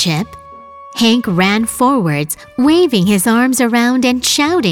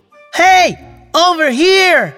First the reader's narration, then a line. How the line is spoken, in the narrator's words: at the top of his voice